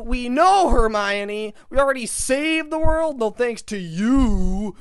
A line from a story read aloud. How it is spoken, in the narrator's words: screamed Harry